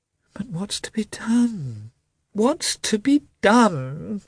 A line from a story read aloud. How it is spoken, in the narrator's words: said he, in a piteous voice, hardly knowing what he was saying